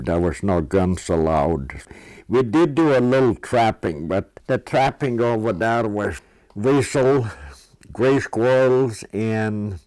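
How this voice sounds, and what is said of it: Strong Norwegian accent. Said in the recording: “Be prepared for a very distinct Norwegian accent.”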